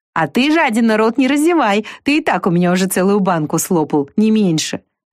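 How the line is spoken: Laughing. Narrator (Russian): засмеявшись, добавила она

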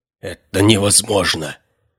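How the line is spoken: Whisper. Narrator (Russian): прошептал второй наемник

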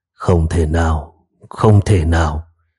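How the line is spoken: Astonished muttering, distant. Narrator (Vietnamese): đạo trưởng ở đằng xa cũng kinh ngạc, miệng không ngừng lẩm bẩm

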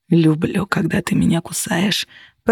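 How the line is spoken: Growled. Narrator (Russian): прорычал Костя

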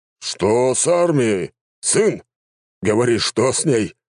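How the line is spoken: Emperor's growl. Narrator (Russian): рыкнул император

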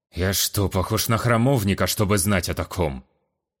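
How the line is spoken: Irritated snap. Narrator (Russian): Раздраженно огрызнулся Кавим

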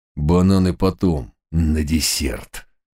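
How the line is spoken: Rasping through gritted teeth. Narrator (Russian): проскрипел зубами закоренелый преступник

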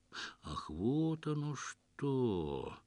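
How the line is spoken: Slow sing-song drawl. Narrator (Russian): Медленно и певуче протянул знаток женских душ, для которого неожиданно все стало на свои места

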